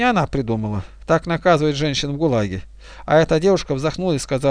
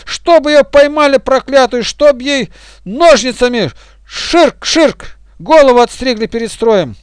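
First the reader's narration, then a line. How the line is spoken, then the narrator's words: Furious group shouting. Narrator (Russian): все кричали, особенно одна, злобно вращая глазами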